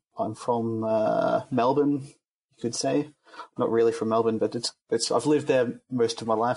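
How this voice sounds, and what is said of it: Australian accent. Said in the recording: “You might hear from my accent that I started in Australia.”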